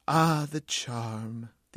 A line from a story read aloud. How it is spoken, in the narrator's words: sighed